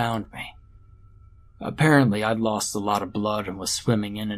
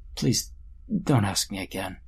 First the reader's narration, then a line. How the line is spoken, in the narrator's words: he said very quietly